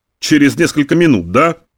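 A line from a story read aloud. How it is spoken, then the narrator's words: Sarcastic grumble. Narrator (Russian): проворчал с сарказмом Замойский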